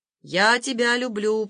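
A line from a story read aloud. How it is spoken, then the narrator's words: Shouted from another room. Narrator (Russian): прокричал он из ванной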